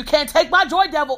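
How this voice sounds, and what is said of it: Imitates another person's voice. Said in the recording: “Why did you have to do the voice?”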